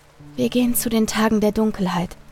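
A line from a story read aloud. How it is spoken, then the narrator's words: Calm voice. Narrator (German): antwortete sie mit ruhiger Stimme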